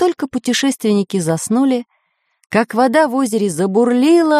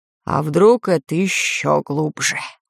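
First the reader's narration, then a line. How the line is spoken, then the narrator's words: Sleepy deep bass. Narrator (Russian): сонные глаза, пробасил пират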